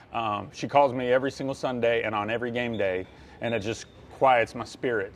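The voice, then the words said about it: Choked-up emotional voice. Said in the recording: “I'm getting choked up”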